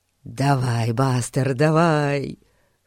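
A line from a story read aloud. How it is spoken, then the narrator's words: Whisper. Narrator (Russian): шептал Эрн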